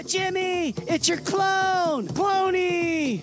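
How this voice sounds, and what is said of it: Happy, excited voice. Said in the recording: “you sound happy.”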